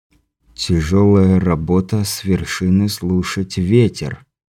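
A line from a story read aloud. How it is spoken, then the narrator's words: Muttering under breath. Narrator (Russian): пробормотал Андрей себе под нос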